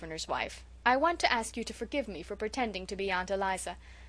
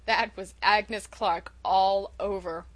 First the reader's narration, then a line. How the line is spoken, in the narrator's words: chuckled Uncle Roger